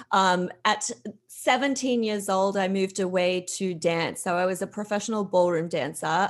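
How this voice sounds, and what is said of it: Mild Australian accent. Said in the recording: “I'm from Australia. I think my accent's a bit watered down by now”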